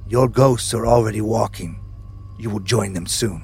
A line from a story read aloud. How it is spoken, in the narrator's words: spoke now in Thai, saying in a low, eerie tone